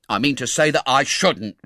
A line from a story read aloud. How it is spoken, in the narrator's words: replied Tom angrily